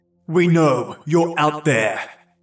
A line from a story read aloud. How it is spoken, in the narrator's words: called out to us for a while, yelling